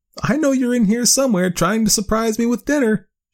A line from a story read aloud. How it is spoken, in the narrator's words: she giggled